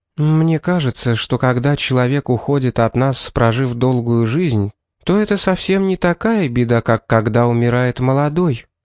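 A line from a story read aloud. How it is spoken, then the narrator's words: Soft, gentle suggestion. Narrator (Russian): мягко предположила она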